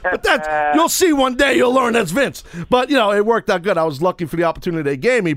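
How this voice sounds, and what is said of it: Heavy Brooklyn New York accent. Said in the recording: “my New York accent, it just screams ... this really heavy Brooklynese accent”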